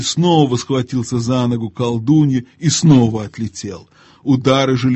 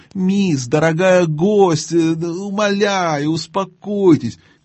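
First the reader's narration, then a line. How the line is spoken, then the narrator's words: Trembling shrill whine. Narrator (Russian): Где-то рядом дрожащим и визгливым голосом скулил дядя Эндрю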